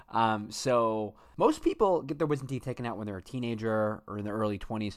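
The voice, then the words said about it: Slightly altered, medicated-sounding voice. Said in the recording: “my voice sounds a little bit different. I got my wisdom teeth taken out last week. I'm currently on a lot of pain medication.”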